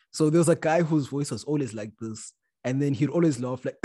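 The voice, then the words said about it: Rough, damaged-sounding voice. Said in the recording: “my voice is kind of fucked up today”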